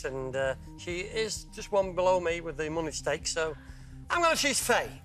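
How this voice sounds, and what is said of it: Northern English accent. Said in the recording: “as you can probably tell by my accent, I'm a northern lad”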